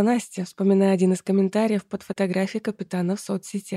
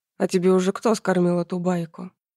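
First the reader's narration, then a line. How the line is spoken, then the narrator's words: Serious explaining tone. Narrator (Russian): Андрей серьезным тоном пояснил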